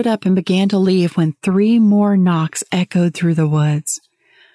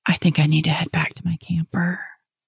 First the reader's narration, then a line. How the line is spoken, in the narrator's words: Whispering, I said